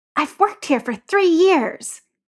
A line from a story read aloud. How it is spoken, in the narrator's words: Alex hisses